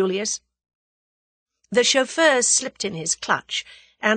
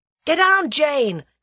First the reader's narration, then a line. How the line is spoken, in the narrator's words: cried Julius